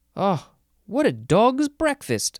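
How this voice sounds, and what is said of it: Bad put-on accent. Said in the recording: “Oh, that was bad. That was a bad accent.”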